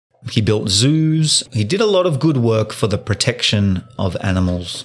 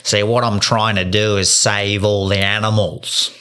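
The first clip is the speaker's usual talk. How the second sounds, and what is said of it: Heavy put-on Australian accent. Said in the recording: “Heavy Australian accent ... Real heavy accent”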